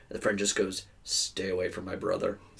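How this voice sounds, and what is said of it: Deadpan flat delivery. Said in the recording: “Just like really deadpan”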